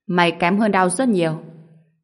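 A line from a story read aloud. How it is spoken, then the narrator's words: Cold, contemptuous. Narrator (Vietnamese): câu khinh thường lạnh lùng của Tiêu Thu Phong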